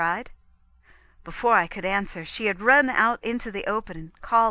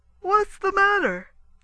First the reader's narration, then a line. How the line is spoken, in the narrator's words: he exclaimed